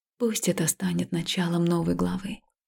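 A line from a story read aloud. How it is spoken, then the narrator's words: Quiet. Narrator (Russian): тихо сказала я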